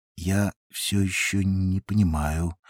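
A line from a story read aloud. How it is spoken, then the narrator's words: Drawling. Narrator (Russian): протянул Барбер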